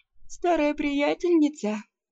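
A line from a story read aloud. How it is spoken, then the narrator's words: Sleepy question. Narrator (Russian): сонно спросила я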